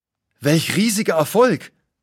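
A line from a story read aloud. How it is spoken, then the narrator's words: Exclaiming. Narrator (German): ruft aus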